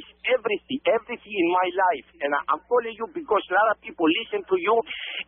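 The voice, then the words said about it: Non-native English accent. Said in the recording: “I judge probably from your accent that English might be your second language”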